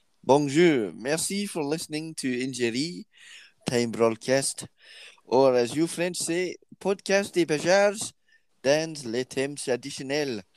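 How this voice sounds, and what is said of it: Slight put-on French accent. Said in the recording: “in a French accent, but maybe just a wee twang”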